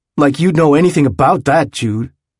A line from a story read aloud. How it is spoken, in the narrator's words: when Malcolm was very upset, he could no longer remember why, he had snapped at him